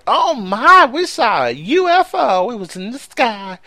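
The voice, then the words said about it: Put-on Kentucky accent. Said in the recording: “You're just profiling doing that accent ... how many people in Kentucky does do sound like that”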